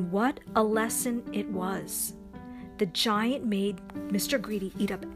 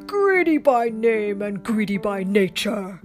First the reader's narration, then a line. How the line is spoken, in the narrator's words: bellowed